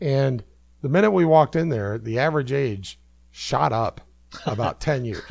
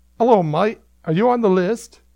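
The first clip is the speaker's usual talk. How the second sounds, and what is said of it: Mixed Australian-Cockney accent. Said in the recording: “Suddenly he's Australian, I guess ... I got one non-American accent. And it sounds vaguely a combination of Australian and Cockney.”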